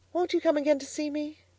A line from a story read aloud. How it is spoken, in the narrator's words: pleaded Miss Lavendar